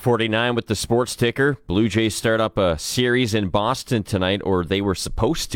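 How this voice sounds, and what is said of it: Usual voice. Nothing is said of it.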